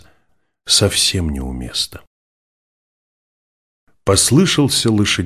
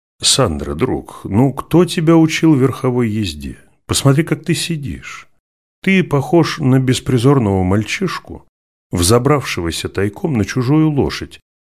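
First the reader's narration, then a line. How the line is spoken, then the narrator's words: Laughing merrily, replying. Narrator (Russian): не менее весело смеясь, отвечал флорентиец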